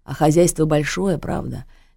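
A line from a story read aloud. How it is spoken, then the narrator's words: Sighing. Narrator (Russian): Лиза вздохнула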